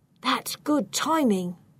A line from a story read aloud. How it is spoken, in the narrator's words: Gaston whispers to me